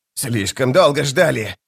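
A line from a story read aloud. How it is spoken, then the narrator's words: Hissed. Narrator (Russian): прошипел Прыщ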